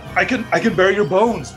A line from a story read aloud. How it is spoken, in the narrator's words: Morgan gasped, trying to draw breath, but not daring to pause